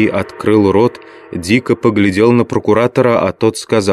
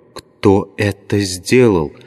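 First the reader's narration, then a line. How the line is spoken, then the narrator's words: Whispered repetition. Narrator (Russian): шепотом повторил Левий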